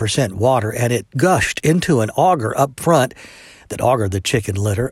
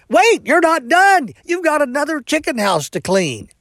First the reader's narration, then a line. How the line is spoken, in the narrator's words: the worker instead hollered